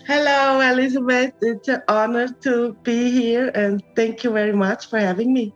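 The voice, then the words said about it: Swiss accent in English. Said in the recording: “these two Swiss women and their Swiss accent”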